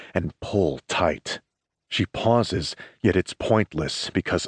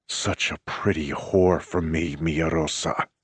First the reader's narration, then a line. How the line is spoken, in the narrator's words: I growl